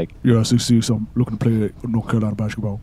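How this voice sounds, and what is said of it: Very deep voice. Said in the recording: “Just such a deep voice for an 8-year-old.”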